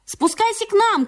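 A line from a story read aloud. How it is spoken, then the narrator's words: Shout. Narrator (Russian): крикнул Митя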